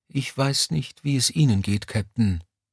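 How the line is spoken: Quiet, hushed. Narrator (German): sagte Mommsen leise, um den Ranghöheren nicht zu wecken

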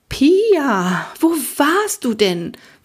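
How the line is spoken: Excited question. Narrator (German): fragte Frau Winkler aufgeregt

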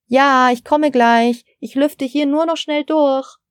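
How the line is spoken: Called toward kitchen. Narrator (German): rief Frau Steiner in Richtung Küche

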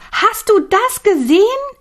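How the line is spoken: Sudden cry. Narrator (German): Millie neben ihm schrie auf

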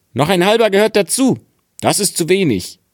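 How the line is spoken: Calling out. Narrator (German): rief er

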